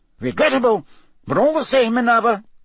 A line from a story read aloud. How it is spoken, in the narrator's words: Cornelius Fudge was saying loudly